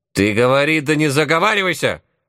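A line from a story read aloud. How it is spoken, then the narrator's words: Old woman barking. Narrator (Russian): рявкнула бабка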